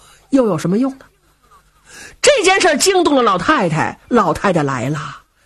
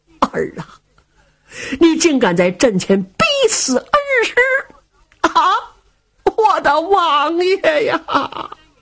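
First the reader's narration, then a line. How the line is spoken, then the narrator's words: Old woman wailing. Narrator (Chinese): 老夫人也是放声大哭啊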